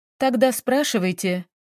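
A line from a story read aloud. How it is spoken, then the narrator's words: Indifferent. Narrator (Russian): ответила она безразличным голосом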